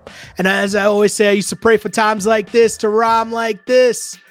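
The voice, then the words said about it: Strained, fading voice. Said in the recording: “And now I'm losing my voice. I need water”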